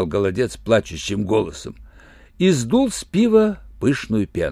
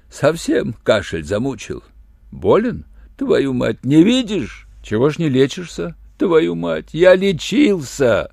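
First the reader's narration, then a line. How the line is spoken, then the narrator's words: Tearful voice. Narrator (Russian): плачущим голосом сказал голодец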